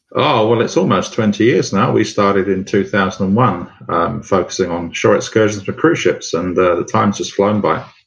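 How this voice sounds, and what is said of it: London English accent. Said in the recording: “the accent ... a good Londoner”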